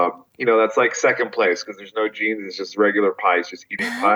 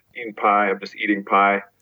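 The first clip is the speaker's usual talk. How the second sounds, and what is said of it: Put-on Southern accent. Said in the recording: “like eating like a very like Southern accent.”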